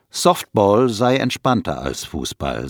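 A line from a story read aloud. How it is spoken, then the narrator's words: Plain. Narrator (German): sagt Herfs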